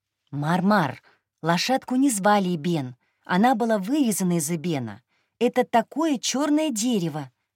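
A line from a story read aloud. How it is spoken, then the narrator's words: Plain. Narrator (Russian): сказала я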